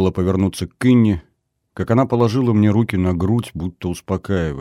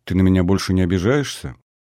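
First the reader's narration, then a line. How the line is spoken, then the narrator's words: Quiet question, young woman. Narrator (Russian): спросила девушка негромко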